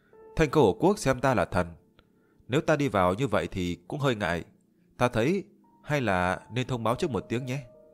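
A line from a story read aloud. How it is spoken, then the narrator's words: Smiling. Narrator (Vietnamese): Liễu Tuyết mỉm cười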